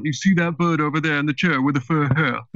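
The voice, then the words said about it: Put-on Liverpudlian accent. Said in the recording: “the Liverpudlian accent has this sound.”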